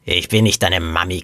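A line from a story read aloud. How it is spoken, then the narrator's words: Sleepy growl. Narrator (German): knurrte die Frau verschlafen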